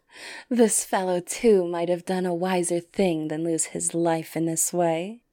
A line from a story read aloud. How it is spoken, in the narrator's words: they laughed heartily, and the eldest said